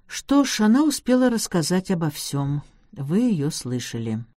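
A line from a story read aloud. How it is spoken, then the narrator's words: Dejected. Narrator (Russian): уныло произнес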